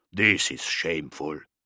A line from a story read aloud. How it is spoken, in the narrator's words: The Space Wolf growled